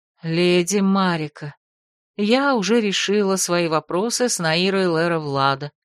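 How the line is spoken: Weary statement. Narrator (Russian): устало сообщила Эбер

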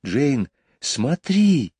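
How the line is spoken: Exclaiming. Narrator (Russian): воскликнул Майкл

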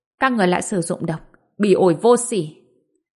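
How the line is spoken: Cold, indifferent. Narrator (Vietnamese): biểu cảm thờ ơ nhìn chằm chằm Mạnh Kình, lạnh lùng nói

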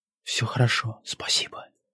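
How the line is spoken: Soft whisper. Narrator (Russian): отвечаю тихо, шепотом, стараясь не нарушить волшебство момента

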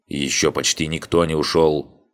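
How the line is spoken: Grumbling displeased gatekeeper. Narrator (Russian): недовольным голосом пробрюзжал привратник

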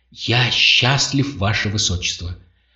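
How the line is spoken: Confiding. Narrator (Russian): Шоркан продолжил доверительным тоном

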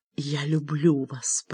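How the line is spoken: Whispering. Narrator (Russian): прошептала она

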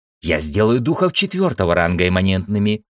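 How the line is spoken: Snorted. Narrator (Russian): фыркнула Ира

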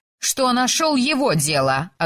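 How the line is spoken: Snapping. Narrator (Russian): огрызнулась она

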